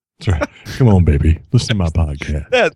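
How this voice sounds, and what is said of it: Very deep low crooning voice. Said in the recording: “My voice is low. ... Night of the Low Voice show. ... It's a Barry White-a-thon.”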